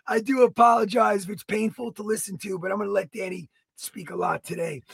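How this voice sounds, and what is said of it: Very raspy, strained voice. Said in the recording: “My voice is shot, as you guys can hear... Usually you're raspy, but this is, like, more raspy.”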